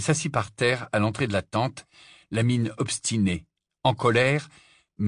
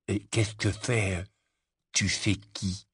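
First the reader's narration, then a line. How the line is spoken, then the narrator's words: Whispered in darkness. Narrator (French): il murmura dans l'obscurité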